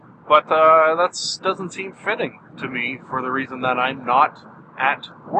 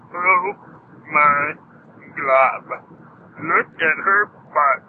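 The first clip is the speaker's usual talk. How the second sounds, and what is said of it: Cartoon character voice impression. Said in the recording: “I do a little LSP impression, Lumpy Space Princess”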